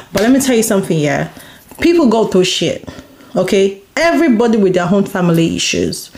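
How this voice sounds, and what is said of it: Mixed Yoruba and American accent. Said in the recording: “incorporating English with Yoruba together, you know, incorporating my accent together, my American. Listen, that's how I speak”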